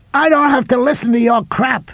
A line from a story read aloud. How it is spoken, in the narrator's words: Ed Neely screamed